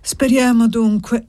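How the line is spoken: Sighing. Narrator (Italian): disse sospirando

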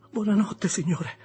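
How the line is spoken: Stammering. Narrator (Italian): balbettai

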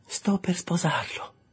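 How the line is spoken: Gentler repetition. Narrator (Italian): ripetei in un tono più gentile

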